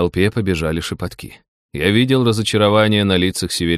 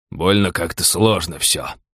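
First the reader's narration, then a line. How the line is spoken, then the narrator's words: Grumbling from front rows. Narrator (Russian): бурчание в передних рядах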